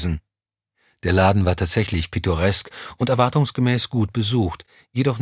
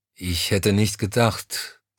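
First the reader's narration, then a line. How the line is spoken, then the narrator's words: Hesitant. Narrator (German): fuhr er zögernd fort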